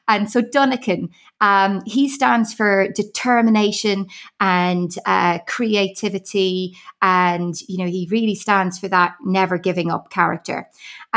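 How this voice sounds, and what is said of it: Irish accent. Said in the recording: “you can pick up from my accent. I am Irish.”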